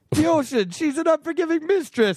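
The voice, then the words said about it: Put-on Italian accent. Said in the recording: “he said it with an Italian accent ... My Italian accent, my captain emulating Italian accent”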